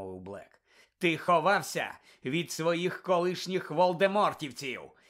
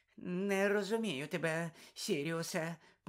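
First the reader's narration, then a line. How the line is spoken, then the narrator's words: Breathless mutter. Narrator (Ukrainian): пробурмотів Петтігрю і задихав ще швидше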